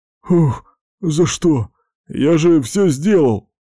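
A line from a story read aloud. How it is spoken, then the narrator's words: Groan. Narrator (Russian): простонал Лысый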